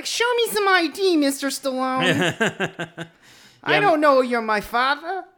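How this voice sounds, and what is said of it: Very high-pitched character voice. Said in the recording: “A very high voice”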